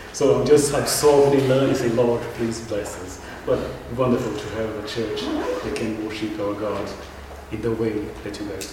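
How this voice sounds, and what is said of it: Brazilian accent. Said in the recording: “my funny accent ... I'm from Brazil”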